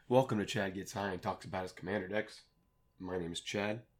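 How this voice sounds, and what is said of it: Sick, congested-sounding voice. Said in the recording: “I also have a cold, you can probably tell by my voice”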